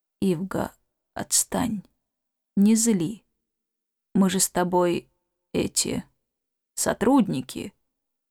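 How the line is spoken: Unusually quiet. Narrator (Russian): сказал непривычно тихо

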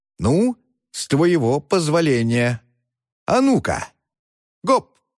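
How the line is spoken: Exclaiming. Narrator (Russian): воскликнул он

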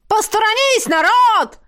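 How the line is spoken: Shouting. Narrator (Russian): орал

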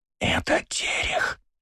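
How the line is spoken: Whispered right in ear. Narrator (Russian): прошептал мне в самое ухо Жан

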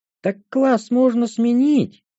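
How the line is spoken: Astonished exclamation. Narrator (Russian): пораженно воскликнула Шантри

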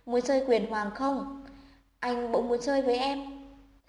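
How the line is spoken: Relieved soft speech. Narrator (Vietnamese): thở phào, khẽ nói

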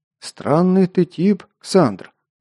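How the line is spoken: Quiet continuation. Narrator (Russian): тихо продолжил он

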